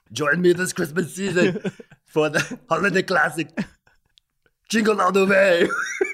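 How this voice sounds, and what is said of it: Fake Austrian accent. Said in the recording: “Your Austrian fake accent might be my favorite. ... a fake Austrian accent.”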